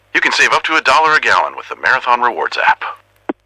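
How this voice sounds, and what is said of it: Impression of Max the Bald Eagle. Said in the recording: “We asked people if they could do an impression of me ... That last one was pretty good.”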